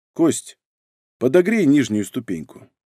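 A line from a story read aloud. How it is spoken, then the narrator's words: Quiet speech. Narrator (Russian): Разумовский тихонько сказал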